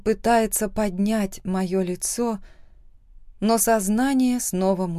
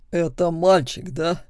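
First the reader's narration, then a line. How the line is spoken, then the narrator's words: Strange, agitated voice. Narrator (Russian): спрашивает Булат странным голосом, взволнованным, неравнодушным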